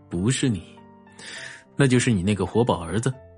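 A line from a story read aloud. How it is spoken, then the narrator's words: Soft laugh. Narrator (Chinese): 荣寒生顺势轻轻一笑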